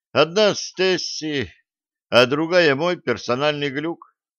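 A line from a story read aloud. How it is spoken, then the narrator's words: Dejected sigh. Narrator (Russian): удрученно вздохнул Блад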